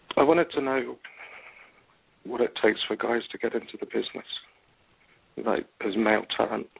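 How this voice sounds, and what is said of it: English accent. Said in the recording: “You have an accent, too. Where's your accent? ... I'm from England.”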